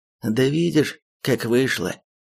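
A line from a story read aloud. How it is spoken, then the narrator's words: Wincing medic, heavy sigh. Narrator (Russian): поморщился фельдшер и еще раз тяжело вздохнул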